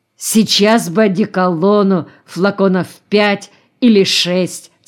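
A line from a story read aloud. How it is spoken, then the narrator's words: Plain. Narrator (Russian): сказал он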